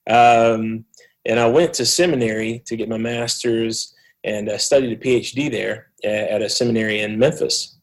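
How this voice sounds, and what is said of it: Southeastern United States accent. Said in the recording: “People could probably tell I'm from the southeast of the United States with my accent.”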